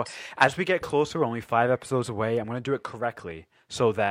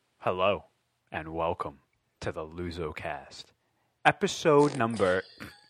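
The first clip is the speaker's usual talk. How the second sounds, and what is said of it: Put-on radio announcer voice. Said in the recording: “I'm trying to put on my like radio voice.”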